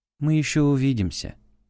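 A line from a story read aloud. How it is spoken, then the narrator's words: Soft. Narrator (Russian): мягко произнесла Элла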